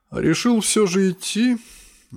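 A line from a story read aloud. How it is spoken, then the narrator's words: Sad flat statement. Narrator (Russian): грустно констатировал артефакт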